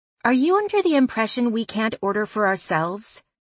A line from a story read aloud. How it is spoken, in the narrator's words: Lulu asked testily